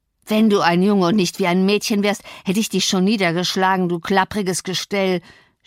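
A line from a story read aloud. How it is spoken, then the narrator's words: Farmer shouting. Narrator (German): schrie der Bauer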